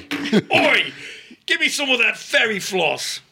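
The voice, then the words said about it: Put-on cockney-sounding accent. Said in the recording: “Now you're doing like more of a cockney.”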